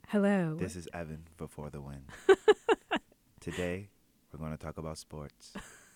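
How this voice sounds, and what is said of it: Quiet whispered radio-host voice. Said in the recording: “That's ... trying to be quiet. ... That's him whispering right there. ... That's his NPR voice.”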